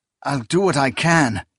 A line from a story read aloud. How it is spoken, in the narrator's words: Akamian stammered